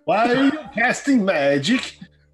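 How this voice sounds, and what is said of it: Heavier put-on foreign accent. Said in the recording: “make my far off accent a little bit heavier ... do the accent”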